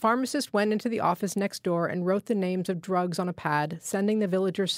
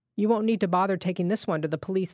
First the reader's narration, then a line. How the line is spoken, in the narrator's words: the pharmacist said